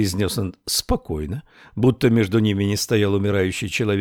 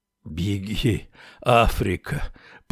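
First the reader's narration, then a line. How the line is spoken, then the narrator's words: Mutter. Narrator (Russian): пробормотал Уиксел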